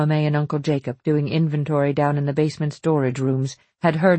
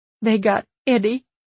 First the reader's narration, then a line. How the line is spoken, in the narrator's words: Fanny sobbed